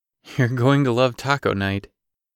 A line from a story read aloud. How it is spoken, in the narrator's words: Grant chuckled